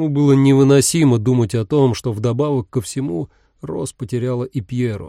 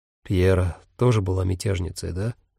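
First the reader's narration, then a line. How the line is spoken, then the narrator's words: Dawning-realization mutter. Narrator (Russian): пробормотал, как только к нему пришло осознание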